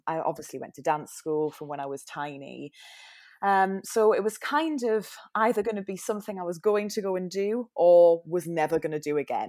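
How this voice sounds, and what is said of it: Newcastle English accent. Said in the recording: “my weird accent. I'm from Newcastle.”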